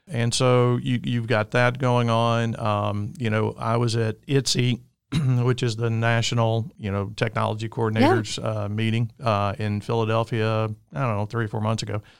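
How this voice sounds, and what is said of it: Alabama Southern US accent. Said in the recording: “I'm from the great state of Alabama, if you can't tell with my accent”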